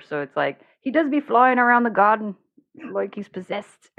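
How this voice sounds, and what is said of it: Irish accent slipping into New Zealand. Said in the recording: “Dang it, it went to New Zealand. I do a decent New Zealand accent.”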